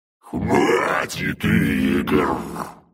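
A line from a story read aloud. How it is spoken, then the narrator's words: Hoarse rasp, demon. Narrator (Russian): прохрипел демон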